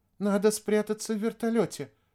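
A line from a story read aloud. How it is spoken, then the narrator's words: Timid. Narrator (Russian): робко сказала Вероника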